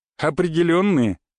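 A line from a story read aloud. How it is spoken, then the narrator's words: Suppressing laughter. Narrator (Russian): едва удержался я, чтобы не рассмеяться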